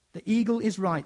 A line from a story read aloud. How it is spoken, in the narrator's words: said Lord Diggory